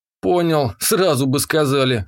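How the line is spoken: Wry grunt. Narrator (Russian): хмыкнул я

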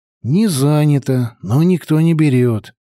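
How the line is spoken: Sighing. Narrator (Russian): вздохнул Петька

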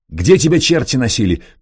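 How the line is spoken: Sharp, role-playing shout. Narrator (Russian): прикрикнул на него специалист, входя в роль

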